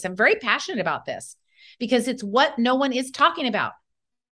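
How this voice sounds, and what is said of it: Passionate, emphatic delivery. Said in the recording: “You can hear the passion in my voice.”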